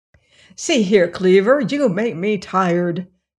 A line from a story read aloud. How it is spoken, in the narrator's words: exclaimed a saucepan very impudently